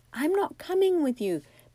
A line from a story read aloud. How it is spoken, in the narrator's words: Bessie shouted